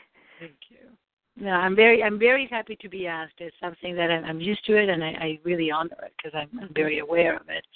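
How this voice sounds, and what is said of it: Non-native English accent. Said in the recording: “I know I have an accent ... your accent is beautiful”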